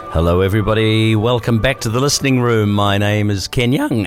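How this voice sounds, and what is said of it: Deeper voice from a cold. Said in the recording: “I've probably changed my voice a little bit... I've got a bit of a cold, so my voice is a little bit more deep today, and sometimes it'll go up really high like that too.”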